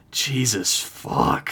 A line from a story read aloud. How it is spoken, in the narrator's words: he grumbled under his breath